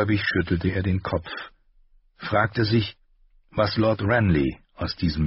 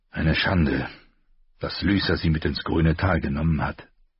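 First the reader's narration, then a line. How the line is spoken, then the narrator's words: Dry. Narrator (German): sagte Ned trocken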